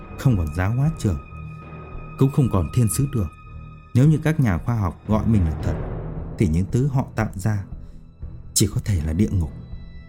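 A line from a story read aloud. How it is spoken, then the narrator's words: Tearful murmur. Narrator (Vietnamese): Thầy Châu nước mắt giàn giụa, ông ghé sát vào tai Dương Cẩm Trình lẩm bẩm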